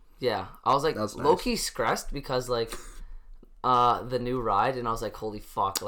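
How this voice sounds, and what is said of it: Hoarse, weak voice after losing it. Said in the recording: “I sound a little weird. I lost my voice”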